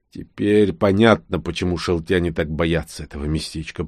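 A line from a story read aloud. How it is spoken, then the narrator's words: Confused muttering. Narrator (Russian): пробормотал в легком замешательстве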